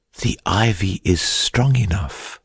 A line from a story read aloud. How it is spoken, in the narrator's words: had whispered